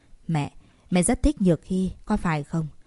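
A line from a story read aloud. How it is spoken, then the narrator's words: Steadied soft whisper. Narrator (Vietnamese): Trần Tịnh mấp máy, bình ổn tâm trạng, nhỏ giọng thì thầm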